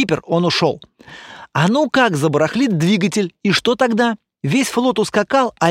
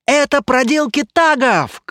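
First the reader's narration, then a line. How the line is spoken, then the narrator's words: Courtier shouting. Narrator (Russian): кричал один из расфуфыренных придворных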